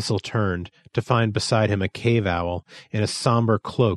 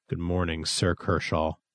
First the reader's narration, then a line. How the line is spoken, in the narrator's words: muttered Thistle